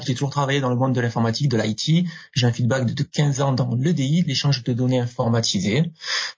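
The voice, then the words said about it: Southern French accent. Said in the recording (French): “je suis originaire du sud de la France. En principe, mon accent me trahit un petit peu. ... on entend bien, bien l'accent du sud”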